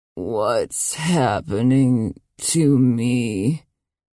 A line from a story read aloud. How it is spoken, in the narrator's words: She croaked